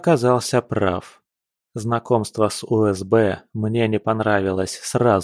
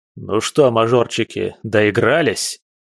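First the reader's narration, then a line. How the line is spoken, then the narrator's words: Young man's bark. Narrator (Russian): рявкнул на нас мужчина, явно моложе 30 лет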